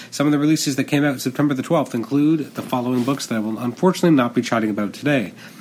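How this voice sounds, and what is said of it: Sick, not-quite-normal voice. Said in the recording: “I'm still recovering from a nasty flu slash uh, the remnants of a cold that came right afterwards, so my voice is not quite up to snuff. So I'm a little bit uh, sounding a little bit different than normal.”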